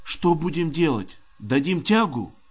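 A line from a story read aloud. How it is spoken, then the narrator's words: Whisper, gunner. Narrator (Russian): прошептал наводчик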